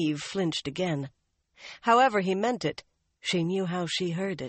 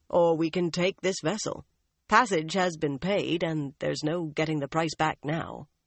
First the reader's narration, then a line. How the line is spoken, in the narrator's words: Tom said dryly